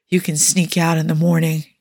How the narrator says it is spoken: he whispered

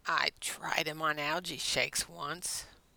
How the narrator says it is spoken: Blair mumbled

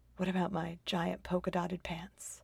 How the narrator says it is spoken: asks finally in a conspiratorial whisper

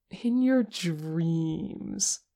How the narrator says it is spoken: Porsche cooed

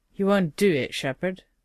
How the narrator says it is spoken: Colonel Carter, her voice rough from anger more than anything else, said

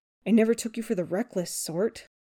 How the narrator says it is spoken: Peter hisses

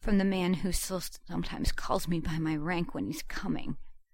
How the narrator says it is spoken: gasped shakily

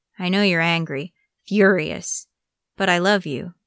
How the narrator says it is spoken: Iruka said

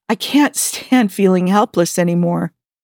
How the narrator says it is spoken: Jim continued, his voice wavering

